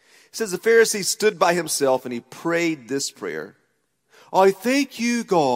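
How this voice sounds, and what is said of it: Usual voice. Nothing is said of it.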